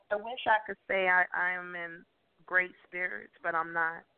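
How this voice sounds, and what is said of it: Strained, fading voice. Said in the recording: “I'm losing my voice, too, which is not good.”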